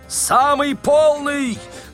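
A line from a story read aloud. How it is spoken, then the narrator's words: Yelled loudly. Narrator (Russian): завопил Остап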